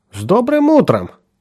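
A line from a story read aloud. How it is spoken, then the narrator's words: Cheerful. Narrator (Russian): бодро произнесла она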